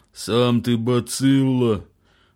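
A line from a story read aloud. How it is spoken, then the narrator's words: Howling. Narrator (Russian): взвыл Загорулька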